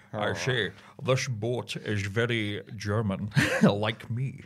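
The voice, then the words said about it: Imitates another person's voice. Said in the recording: “That's a great Sean Connery!”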